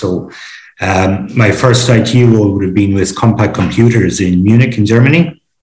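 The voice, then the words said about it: Irish accent. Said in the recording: “I'm from Ireland originally, as you may guess from my accent”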